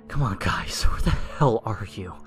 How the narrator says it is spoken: I whispered

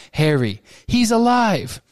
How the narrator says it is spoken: The yell of shock, the cheers, the screams on every side

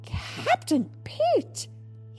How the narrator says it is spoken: he cried

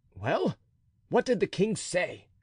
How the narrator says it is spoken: exclaimed D'Artagnan

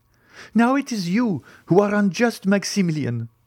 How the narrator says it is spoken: cried Valentine

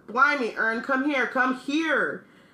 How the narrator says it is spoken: Stan shouted

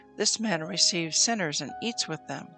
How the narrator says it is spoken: the Pharisees and scribes murmured, saying

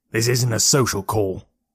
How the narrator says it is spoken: he replied gruffly

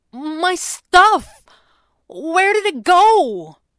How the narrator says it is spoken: Jeremy had protested, his voice sounding more panicked

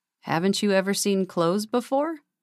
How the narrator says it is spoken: he asked sarcastically

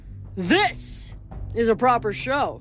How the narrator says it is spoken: boomed the voice of Bacchus

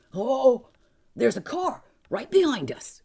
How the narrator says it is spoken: George shouted

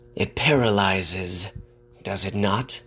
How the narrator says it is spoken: he hissed

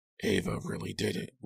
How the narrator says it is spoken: Lou muttered grimly

